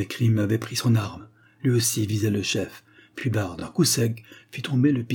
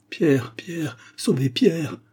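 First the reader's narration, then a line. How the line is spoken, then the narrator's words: Distraught woman crying out. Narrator (French): s'écria la malheureuse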